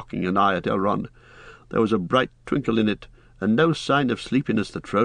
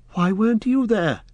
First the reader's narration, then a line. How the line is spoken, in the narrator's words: cried Frodo